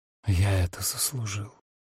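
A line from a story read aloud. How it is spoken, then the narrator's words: Barely audible whisper. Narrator (Russian): едва слышно прошептал он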